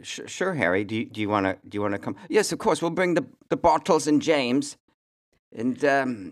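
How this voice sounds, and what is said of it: Put-on accent that slips. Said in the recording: “That's where my accent falls apart when I start”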